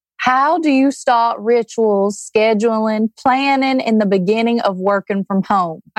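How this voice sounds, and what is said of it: Thick put-on Southern accent. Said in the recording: “You got to ask it in a Southern accent ... that was so ... thick”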